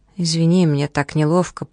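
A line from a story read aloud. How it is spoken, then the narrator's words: Mumbled. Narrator (Russian): пробормотал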